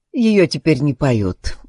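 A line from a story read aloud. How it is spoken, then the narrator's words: Sigh. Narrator (Russian): вздохнул Ребус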